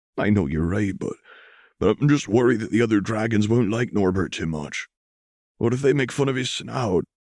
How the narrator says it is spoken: Kellen chuckled

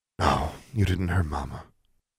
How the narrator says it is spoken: Claudia sighed

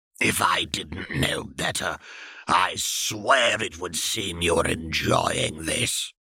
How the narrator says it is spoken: Voldemort gritted his teeth and hissed

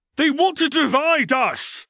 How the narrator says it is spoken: Draco screamed

